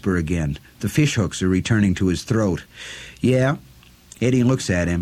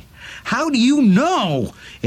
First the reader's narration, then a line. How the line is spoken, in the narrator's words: Eddie screams at him in sudden frustration